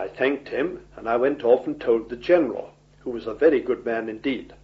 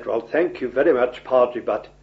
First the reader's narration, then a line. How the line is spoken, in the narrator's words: he said